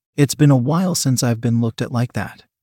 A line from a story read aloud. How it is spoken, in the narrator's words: said